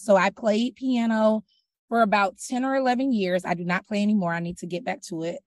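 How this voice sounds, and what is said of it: Slightly raspy voice. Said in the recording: “I'm a little raspy today”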